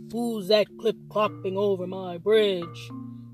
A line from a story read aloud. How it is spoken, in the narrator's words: snarled the nasty troll